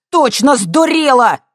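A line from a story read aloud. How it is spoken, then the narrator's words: Shouting. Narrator (Russian): крикнул он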